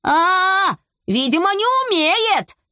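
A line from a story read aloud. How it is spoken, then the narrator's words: Shouting while running. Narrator (Russian): кричал Берти на бегу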